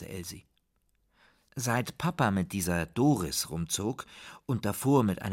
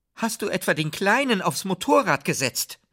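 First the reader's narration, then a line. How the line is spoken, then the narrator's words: Calling out. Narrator (German): rief Tante Elsie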